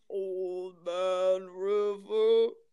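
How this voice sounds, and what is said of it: Imitates a deep singing voice. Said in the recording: “the sound of a thousand mountains in his deep, gorgeous voice ... my best impression ... It's terrible. it's pretty good though ... I'm up an octave from him.”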